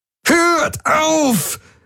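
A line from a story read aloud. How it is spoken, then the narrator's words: Roared. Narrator (German): brüllte Jun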